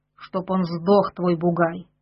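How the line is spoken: Angry. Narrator (Russian): сказал он сердито

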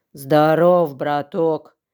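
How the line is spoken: Wolf's wheezing rasp. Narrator (Russian): прохрипел волк

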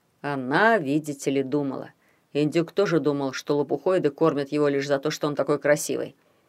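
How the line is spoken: Mocking. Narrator (Russian): насмешливо произнес Эссиорх

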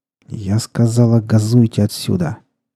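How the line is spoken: Through gritted teeth. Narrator (Russian): сквозь зубы произнесла Волкова

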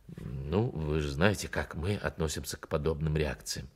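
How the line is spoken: Muttering. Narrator (Russian): он пробормотал

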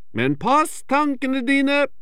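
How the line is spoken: Called after her. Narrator (Norwegian): roper flaskeheksa etter henne

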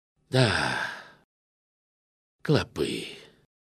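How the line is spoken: Heavy sigh. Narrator (Russian): отвечал он, тяжело вздохнув

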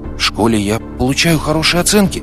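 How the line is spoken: Uncertain. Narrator (Russian): сказал неуверенно

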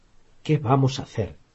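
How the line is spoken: Stammered. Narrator (Spanish): balbuceó Harry

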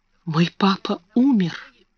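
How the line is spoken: Whispering. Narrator (Russian): шептала она

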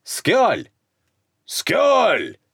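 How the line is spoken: Bark. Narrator (Russian): рявкнул Славка

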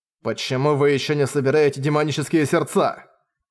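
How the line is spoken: Angry bark. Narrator (Russian): рявкнул Манхао

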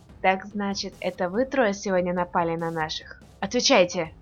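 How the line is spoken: Menacing. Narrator (Russian): грозно сказал Дис

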